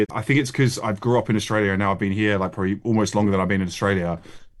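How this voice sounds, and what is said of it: Slight Australian accent, nasal O sounds. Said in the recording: “You still got that twinge though. You still got the accent, haven't you? It's the classic. It's the nose. It's the homes. It's the O sound, isn't it?”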